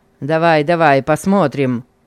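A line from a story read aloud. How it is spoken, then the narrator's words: Stern order. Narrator (Russian): Строго приказал он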